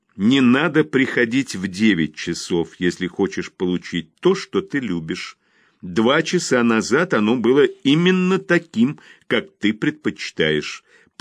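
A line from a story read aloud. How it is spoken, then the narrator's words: Through gritted teeth. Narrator (Russian): произнесла сквозь зубы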